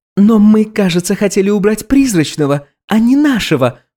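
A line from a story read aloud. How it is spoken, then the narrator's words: Squeal. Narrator (Russian): взвизгнула Алина Сергеевна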